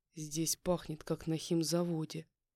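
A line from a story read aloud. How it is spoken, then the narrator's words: Contemptuous snort. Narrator (Russian): Презрительно фыркнул он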